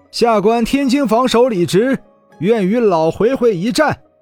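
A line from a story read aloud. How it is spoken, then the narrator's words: Loud. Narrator (Chinese): 李直 大声说道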